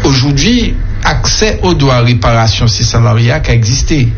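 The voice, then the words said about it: Speaks with a noticeable accent. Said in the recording (French): “c'est mon accent”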